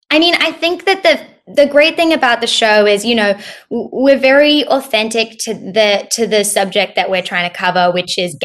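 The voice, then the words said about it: Australian accent, somewhat Americanized. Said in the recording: “phony Australian accent ... My accent is weird ... my accent's gotten kind of weird ... I can hear the Aussie now”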